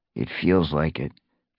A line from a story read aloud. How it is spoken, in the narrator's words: Fireheart grunted